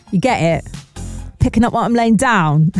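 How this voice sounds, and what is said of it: Poor put-on London accent. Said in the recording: “I don't know where in London that accent is from ... Oh my God, it needs work. It needs a lot of work, that accent.”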